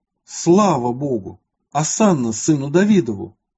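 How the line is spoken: Joyful crowd exclaiming together. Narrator (Russian): народ весьма возрадовался, и все в один голос воскликнули

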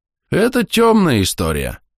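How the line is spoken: Sighing. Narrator (Russian): вздохнул солдат

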